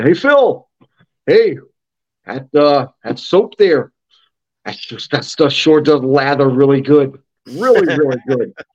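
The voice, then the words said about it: Imitates another person's voice, Iowa. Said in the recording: “he's from Iowa, and I do a really good Rick White impersonation”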